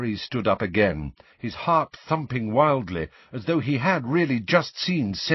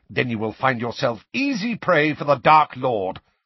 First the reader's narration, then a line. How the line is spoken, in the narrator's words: said Snape savagely